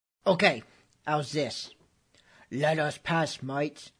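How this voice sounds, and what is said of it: Weak pirate captain impression. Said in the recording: “your Captain Jack impersonation, you leave something to be desired”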